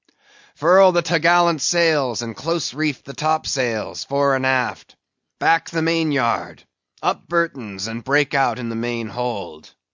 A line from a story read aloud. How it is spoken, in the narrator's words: raising his voice to the crew